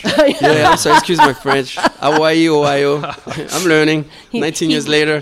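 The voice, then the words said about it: French-English accent. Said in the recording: “Got the French-English accent. ... TH is very difficult for French people.”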